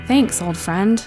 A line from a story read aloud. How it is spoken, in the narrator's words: murmured